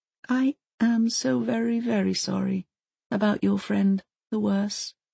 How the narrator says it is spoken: she says gently

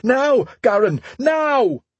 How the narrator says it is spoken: shout

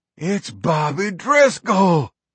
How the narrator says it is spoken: Rocky cried

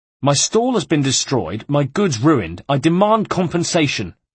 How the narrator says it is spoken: the businessman was saying in an angry tone

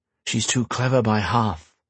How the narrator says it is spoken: he muttered

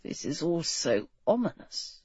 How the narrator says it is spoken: G muttered

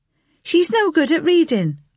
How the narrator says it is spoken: Oliver called out

